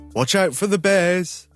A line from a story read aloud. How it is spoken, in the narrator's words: His father called out